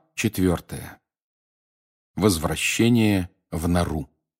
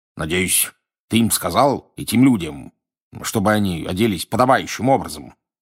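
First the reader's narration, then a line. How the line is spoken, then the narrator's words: Grumbling. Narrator (Russian): проворчал он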